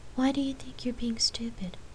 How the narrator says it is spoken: Lark asked softly

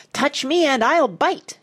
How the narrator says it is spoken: it screeched

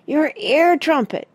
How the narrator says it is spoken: yelled Parrot

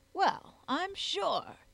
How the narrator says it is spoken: he exclaimed genially

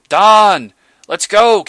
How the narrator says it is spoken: came a shout

